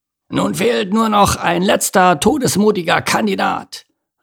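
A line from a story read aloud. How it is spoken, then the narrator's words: Hoarse spider calling out. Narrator (German): rief eine haarige, dickbäuchige Spinne mit heiserer Stimme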